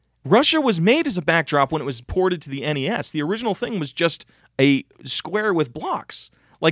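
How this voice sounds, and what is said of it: Usual voice. Nothing is said of it.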